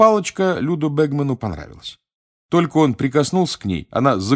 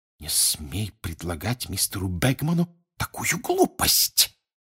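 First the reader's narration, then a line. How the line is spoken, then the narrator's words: Furious hiss. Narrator (Russian): яростно прошипел Перси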